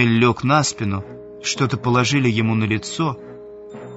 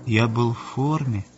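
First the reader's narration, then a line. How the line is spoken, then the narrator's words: Weak voice. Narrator (Russian): слабым голосом проговорил Мануэль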